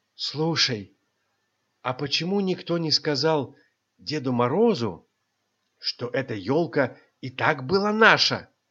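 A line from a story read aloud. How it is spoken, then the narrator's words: Whispered question. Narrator (Russian): Шепотом спросил Животинка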